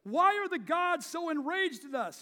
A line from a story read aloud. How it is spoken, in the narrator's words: He called out to everybody, but also to nobody in particular